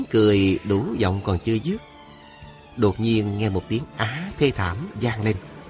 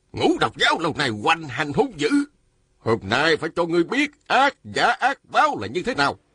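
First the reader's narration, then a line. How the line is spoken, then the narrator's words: Angry voice. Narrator (Vietnamese): Đạo sĩ râu dài giận dữ nói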